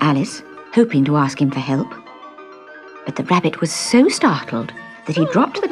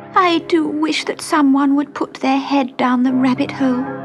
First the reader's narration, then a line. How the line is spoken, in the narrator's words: she said with a sob